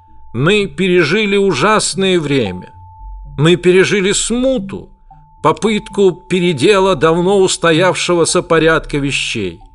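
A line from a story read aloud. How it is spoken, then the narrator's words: Solemn public address. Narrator (Russian): говорил вершитель Орхут с галереи Свайги, торжественно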